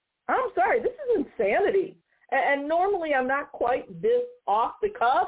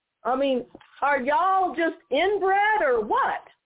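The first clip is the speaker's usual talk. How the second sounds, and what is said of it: Put-on Southern accent. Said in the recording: “to use that Southern accent again”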